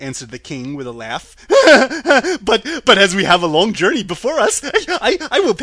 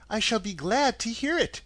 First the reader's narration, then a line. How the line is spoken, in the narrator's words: she replied